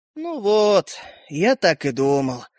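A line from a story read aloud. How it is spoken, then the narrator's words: Tiny boy's sigh. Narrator (Russian): вздохнул мальчик с пальчик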